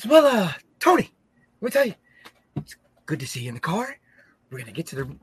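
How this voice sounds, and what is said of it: Imitates another person's voice. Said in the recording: “does a hell of a Mikey Whipwreck impersonation”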